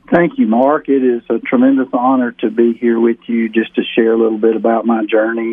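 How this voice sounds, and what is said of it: Southern American accent. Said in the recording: “We can pick up your accent so we know it's from the South.”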